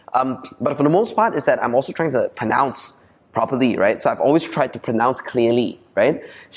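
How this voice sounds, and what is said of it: Malaysian Chinese English accent. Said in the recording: “I'm like true and true abeng in my core accent ... I grew up in Malaysia ... it's abeng thing that I can't get rid of”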